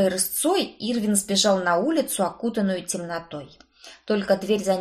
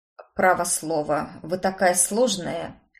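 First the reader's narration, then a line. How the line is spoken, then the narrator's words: Snorting. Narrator (Russian): хмыкнул плотник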